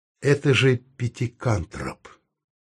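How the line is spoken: Tender, in English. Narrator (Russian): нежно по-английски сказал Саул

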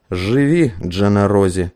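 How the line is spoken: Breathed out. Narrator (Russian): выдохнул он

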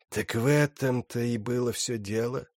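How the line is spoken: Hiss. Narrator (Russian): прошипел Брукалак

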